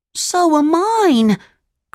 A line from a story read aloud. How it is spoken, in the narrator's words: cried Pinocchio